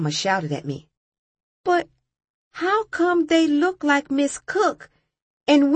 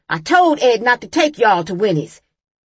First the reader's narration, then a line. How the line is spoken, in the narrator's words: she shouted